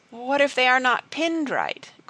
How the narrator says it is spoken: quavered Elnora

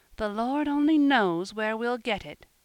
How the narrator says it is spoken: she groaned within herself

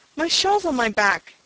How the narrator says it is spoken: snapped

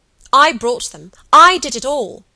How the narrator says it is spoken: cried Helen

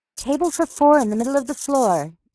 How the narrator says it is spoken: yelled Phoebe

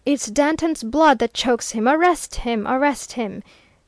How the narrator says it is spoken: they shouted from the right

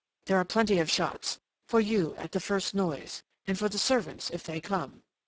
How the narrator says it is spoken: she went on in that fierce undertone

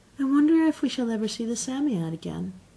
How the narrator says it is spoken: said Jane wistfully

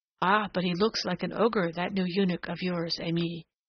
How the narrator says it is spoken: murmured one of the little Turks

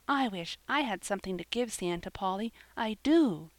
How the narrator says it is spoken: she cried

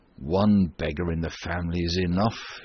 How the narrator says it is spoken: used to grumble, when his wife upbraided him

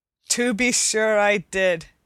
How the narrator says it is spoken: answered her father with a happy laugh

